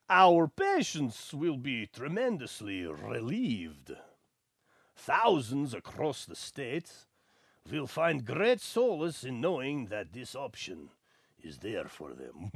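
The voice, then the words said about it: Dracula character voice. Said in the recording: “That was my Dracula impression.”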